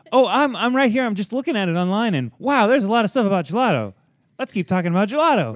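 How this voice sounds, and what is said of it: Impression of a co-host. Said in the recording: “was that a Carly impression? ... That was more Matt. ... your impression of Matt doing a Carly impression?”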